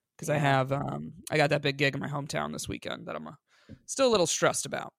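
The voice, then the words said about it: Voice sounds a little sick. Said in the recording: “you could probably hear it in my voice a little bit. I woke up pretty sick today”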